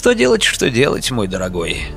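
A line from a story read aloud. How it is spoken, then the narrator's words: Sighed. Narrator (Russian): вздохнул Григорий Александрович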